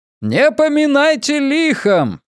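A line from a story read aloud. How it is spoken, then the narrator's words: Shout. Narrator (Russian): крикнул он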